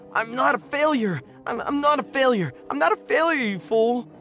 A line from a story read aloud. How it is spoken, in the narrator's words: screaming